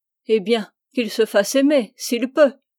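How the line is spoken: Shouted. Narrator (French): cria-t-elle

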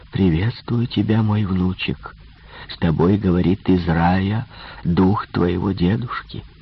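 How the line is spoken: Whisper into microphone. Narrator (Russian): я шепнул в микрофон

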